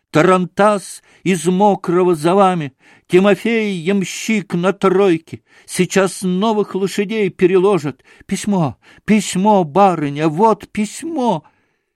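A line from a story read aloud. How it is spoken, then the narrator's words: Constant shouting. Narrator (Russian): все время кричала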